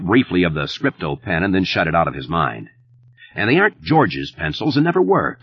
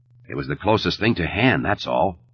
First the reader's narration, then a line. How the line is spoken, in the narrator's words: he said testily